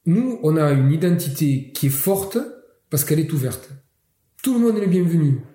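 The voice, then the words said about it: Catalan accent in French. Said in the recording (French): “Vous l'avez peut-être entendu à mon accent, moi je suis originaire je suis catalan”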